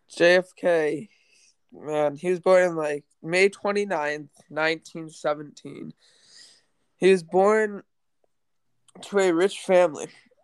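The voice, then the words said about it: Congested voice from a cold. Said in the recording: “I have a cold right now, so I don't sound that great.”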